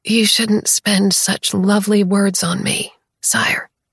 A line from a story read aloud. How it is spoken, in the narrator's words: I murmur groggily